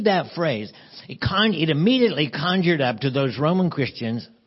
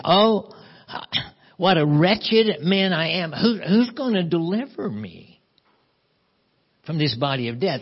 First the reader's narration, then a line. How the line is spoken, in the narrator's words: cries out in agony and says